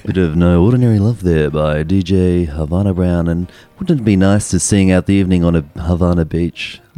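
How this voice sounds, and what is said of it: Sexy radio DJ voice. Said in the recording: “Is that your DJ voice? ... I'll do the sexy one”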